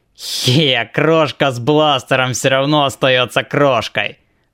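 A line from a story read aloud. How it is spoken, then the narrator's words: Nasty nasal voice. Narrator (Russian): проговорил кто-то противным гнусавым голосом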